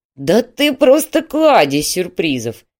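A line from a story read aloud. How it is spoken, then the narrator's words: Laughing. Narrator (Russian): рассмеялся Васин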